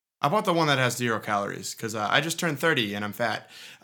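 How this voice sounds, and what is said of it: Boston accent. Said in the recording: “I am such a townie, as you can tell by my accent”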